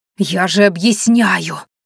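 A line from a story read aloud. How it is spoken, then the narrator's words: Hoarse wheeze. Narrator (Russian): просипела я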